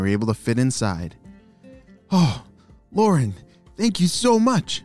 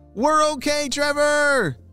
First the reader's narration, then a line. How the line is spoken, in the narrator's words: shouted Lauren